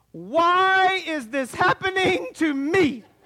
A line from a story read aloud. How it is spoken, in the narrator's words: as loudly and energetically as she possibly could, she said